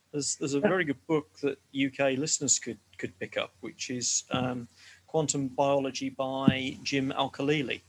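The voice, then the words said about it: English accent. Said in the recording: “Is it my English accent?”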